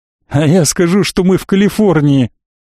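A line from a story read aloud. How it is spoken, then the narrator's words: Laughing aloud. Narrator (Russian): Денис уже смеялся в голос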